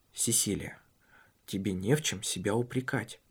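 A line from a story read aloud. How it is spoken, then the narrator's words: Whisper. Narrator (Russian): прошептал потому что в гостиной была горничная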